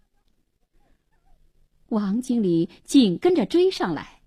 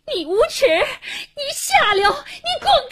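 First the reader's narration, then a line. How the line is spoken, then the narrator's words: Frantic terrified furious cursing. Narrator (Chinese): 一声狂喊，黄英一脸恐怖地，气急败坏地骂着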